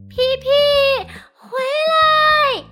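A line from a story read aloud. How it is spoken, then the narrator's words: Girl shouting loudly. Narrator (Chinese): 妹妹丽丽高声喊叫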